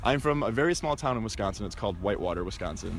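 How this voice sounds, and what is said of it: American accent. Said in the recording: “you have an American accent”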